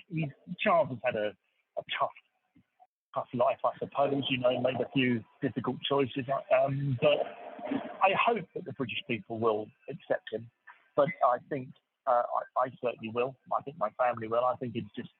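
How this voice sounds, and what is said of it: English accent. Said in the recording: “He's from England. You might have picked that up from the accent.”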